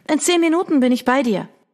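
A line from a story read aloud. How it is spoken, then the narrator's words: Calling out. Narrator (German): rief ihr entgegen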